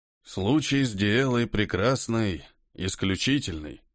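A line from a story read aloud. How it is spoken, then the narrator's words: Dry voice. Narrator (Russian): говорил тот сухим голосом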